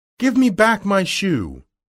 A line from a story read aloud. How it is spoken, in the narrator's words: She cried to the witch